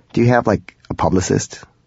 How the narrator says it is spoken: I stammered

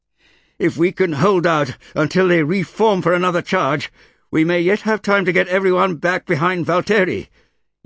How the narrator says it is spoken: yelled Orin

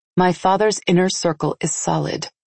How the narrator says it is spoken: I said evenly

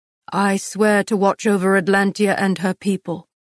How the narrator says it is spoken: Castile answered, his voice thick

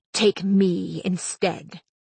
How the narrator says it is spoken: Gert hissed

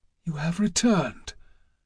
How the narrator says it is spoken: she said in a whisper

